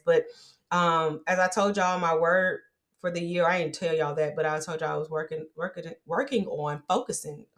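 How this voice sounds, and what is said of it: Talking very fast. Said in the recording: “I'm talking too fast, ... I'll tell y'all why I'm talking fast, because I'm trying to get this done.”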